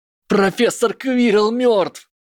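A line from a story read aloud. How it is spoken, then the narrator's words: Howling wail. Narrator (Russian): взвыл Гарри Поттер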